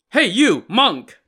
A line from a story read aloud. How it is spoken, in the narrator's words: the man shouted